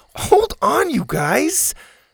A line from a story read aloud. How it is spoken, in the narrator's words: Zada laughed